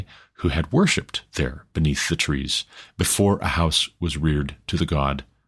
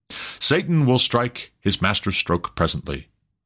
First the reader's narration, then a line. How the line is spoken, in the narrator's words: cried some